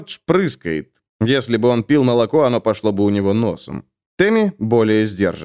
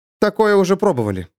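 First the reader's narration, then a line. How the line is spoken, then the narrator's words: Calm. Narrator (Russian): спокойно говорит Малика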